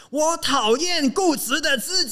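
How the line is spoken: Loud inner voice. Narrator (Chinese): 我突然间在心里面很大声的告诉自己

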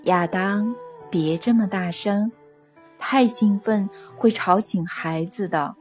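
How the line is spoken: Soft fatherly reply. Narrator (Chinese): 父亲轻声的回答

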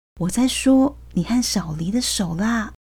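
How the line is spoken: Hushed low voice. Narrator (Chinese): 怕 David 听到，郑仁伟声音更低了

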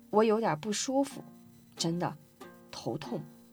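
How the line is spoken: Soft murmur. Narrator (Chinese): 我喃喃低语

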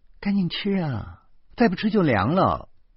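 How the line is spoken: Sighing. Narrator (Chinese): 李爱家又叹息了一声，然后说

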